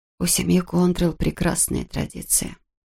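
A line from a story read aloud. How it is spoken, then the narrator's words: Whisper. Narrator (Russian): прошептала она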